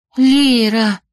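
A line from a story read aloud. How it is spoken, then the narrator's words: Breathed out. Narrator (Russian): выдохнула Беляна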